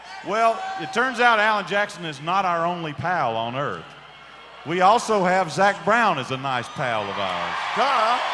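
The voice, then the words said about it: Southern American country accent. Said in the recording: “I got this accent, I guess. ... Country accent”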